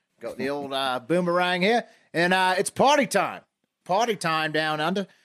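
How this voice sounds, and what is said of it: Terrible put-on Australian accent. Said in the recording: “accent going, the terrible Australian accent”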